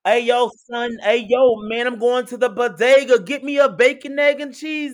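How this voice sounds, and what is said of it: Imperfect put-on Brooklyn accent. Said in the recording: “continue work on your Brooklyn accent ... You're getting there. You're getting there. It's getting better.”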